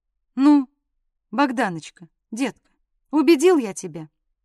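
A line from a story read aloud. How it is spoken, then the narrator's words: Tired question. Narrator (Russian): Потом спросил устало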